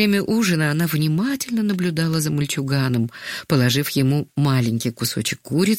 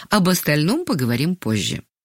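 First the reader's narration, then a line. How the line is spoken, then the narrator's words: Calm. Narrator (Russian): спокойно сказала Ангелина Сергеевна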